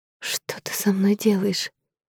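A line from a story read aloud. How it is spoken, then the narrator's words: Whispering. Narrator (Russian): шептала я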